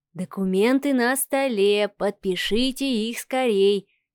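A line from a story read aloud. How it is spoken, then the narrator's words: Soft singing. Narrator (Russian): тихонько начал напевать Волкович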